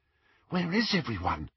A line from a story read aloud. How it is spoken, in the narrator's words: whispered Hermione